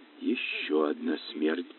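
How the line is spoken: Whispered. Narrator (Russian): прошептала

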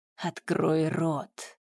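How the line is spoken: Icy command. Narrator (Russian): Ледяным тоном приказала ведьма

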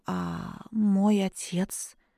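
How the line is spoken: Hoarse question. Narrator (Russian): сипло спросила

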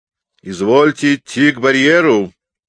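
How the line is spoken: Stern. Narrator (Russian): строго заметил мне Калабердяев

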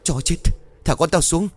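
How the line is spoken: Loud shouting. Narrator (Vietnamese): hai vợ chồng ông Tùng hét lớn

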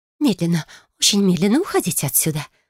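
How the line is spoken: Whispered. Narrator (Russian): прошептала магистр Терианс

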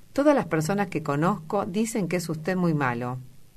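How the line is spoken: Old lady exclaiming disapprovingly. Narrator (Spanish): exclamó la anciana señora meneando la cabeza

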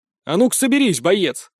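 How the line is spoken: Sharp call. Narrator (Russian): От моего оклика

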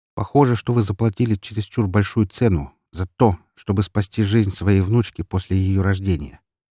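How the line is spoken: Plain. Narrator (Russian): ответил я ему

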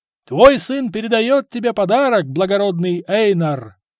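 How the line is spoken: Shouting over crowd noise. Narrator (Russian): кричал пытаясь перекрыть людской гул

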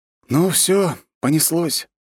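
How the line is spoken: Sighed. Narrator (Russian): вздохнул

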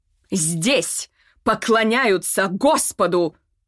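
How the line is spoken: Loud yelling. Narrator (Russian): заорала

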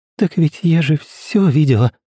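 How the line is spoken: Trembling voice. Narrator (Russian): дрожащим голосом ответила Нина

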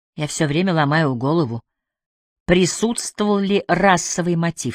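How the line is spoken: Plain. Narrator (Russian): сказала она

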